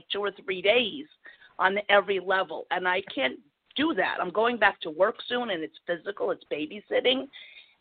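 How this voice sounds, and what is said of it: New Jersey accent. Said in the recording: “as soon as I heard your accent, so I was born and raised in New Jersey”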